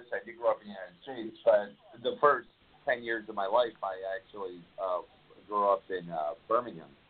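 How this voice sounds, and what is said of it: American accent. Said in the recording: “You've got an American accent ... you sound like you've got an American accent.”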